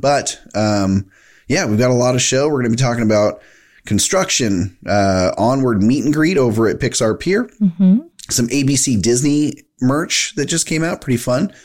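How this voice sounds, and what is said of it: Congested, sinusy voice. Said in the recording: “you might hear it in my voice. It's a little bit gross ... A little sinus thing going on”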